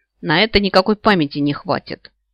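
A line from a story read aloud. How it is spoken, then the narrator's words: Grumbling. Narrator (Russian): пробурчала я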